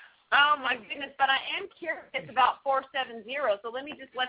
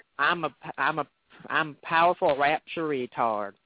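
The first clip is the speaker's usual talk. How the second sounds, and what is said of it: Put-on Southern American accent. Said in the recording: “They have to say it in a southern accent. ... It's just funny in a southern accent.”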